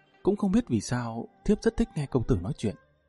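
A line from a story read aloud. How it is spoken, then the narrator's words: Soft, shy woman. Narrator (Vietnamese): nàng khẽ nói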